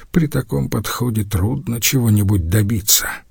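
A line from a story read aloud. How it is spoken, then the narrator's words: Muttered. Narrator (Russian): пробормотал Ломбарди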